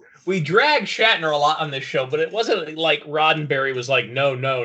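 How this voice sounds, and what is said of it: Usual voice. Nothing is said of it.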